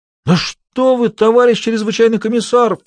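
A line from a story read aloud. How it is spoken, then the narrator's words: Whiny exclamation. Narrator (Russian): плаксиво, воскликнул Исаев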